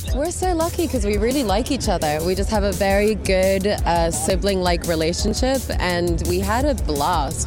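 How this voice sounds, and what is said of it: Accent shifting between many regions. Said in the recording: “She's really giving us around the world in 30 syllables with that accent, isn't she? Pick a lane, Anya.”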